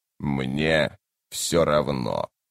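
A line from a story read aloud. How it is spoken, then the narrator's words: Indifferent creaky voice. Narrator (Russian): равнодушно проскрипел Тлен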